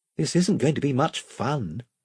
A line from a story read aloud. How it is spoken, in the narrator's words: whispered Edmund to Caspian